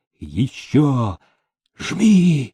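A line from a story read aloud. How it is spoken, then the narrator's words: Wheezing pike. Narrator (Russian): прохрипел щука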